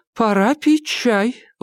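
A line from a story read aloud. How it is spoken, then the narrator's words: Exclaiming. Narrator (Russian): воскликнула Клара Хэй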